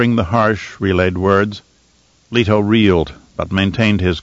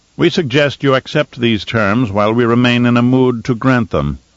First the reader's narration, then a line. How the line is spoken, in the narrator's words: Shaddam said